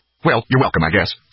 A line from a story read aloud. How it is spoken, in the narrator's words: snapped the woman